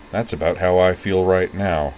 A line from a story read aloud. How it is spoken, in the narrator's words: said Sayanji gloomily